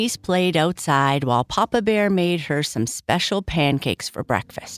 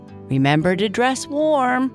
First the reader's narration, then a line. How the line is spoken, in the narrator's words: Papa Bear yelled from the kitchen